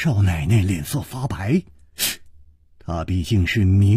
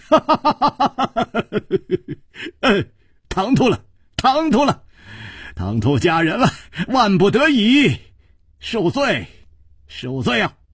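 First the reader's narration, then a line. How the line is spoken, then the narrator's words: Laughing. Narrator (Chinese): 楚留香笑道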